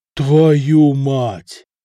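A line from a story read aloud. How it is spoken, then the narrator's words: Breathless exclamation. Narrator (Russian): выдохнул Самослав, как только прочел свиток до половины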